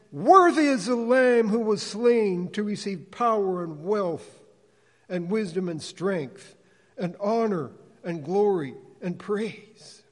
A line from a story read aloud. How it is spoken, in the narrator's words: In a loud voice they sang